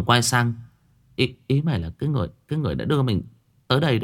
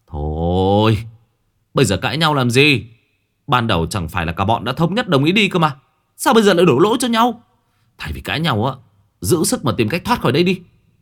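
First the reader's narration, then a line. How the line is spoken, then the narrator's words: Weary irritated snapping. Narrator (Vietnamese): Nghĩa chán nản gắt gỏng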